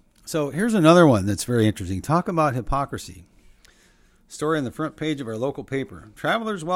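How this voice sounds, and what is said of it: Usual voice. Nothing is said of it.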